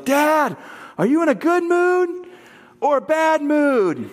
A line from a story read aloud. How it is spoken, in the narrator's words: she yells